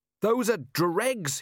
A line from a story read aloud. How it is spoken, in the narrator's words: he shouted